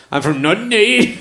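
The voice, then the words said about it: Put-on Northern Irish accent. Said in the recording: “That's my that's Northern Irish accent there.”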